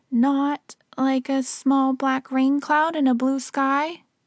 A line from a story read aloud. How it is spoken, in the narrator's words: said Pooh anxiously